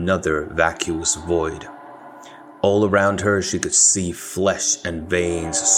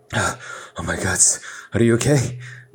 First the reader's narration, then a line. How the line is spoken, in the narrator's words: Nikolai asked frantically